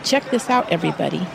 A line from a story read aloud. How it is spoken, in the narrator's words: said